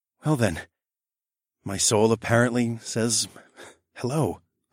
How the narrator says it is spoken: I whispered

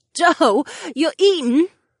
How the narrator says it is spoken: Sienna laughed

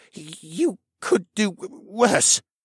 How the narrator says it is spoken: Geo gasped

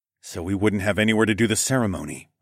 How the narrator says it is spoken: I murmured

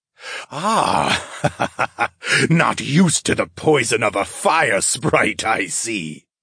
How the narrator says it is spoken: Mollo chuckled

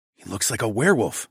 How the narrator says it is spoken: I muttered

